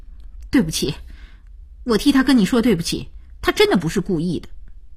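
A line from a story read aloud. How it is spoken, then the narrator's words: Stern voice. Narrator (Chinese): 声音凛然起来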